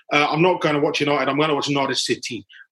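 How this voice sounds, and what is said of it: Put-on Welsh accent. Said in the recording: “I don't know why I did that with a Welsh accent”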